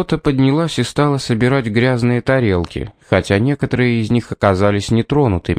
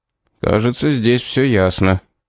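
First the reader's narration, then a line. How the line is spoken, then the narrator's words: Gloomy mutter. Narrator (Russian): мрачно буркнул Корнуоллес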